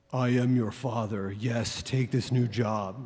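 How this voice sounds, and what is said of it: Darth Vader voice impression. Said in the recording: “as James Earl Jones, Darth Vader ... sorry, I'm not a great James Earl Jones impersonator”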